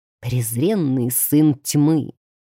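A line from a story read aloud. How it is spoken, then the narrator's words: Hissed. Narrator (Russian): прошипел святоша рядом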